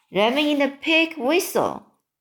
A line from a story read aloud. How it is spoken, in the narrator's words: cried the BFG